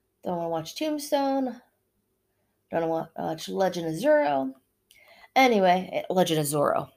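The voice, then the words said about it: Pennsylvania accent. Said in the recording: “there goes the Pennsylvania accent again”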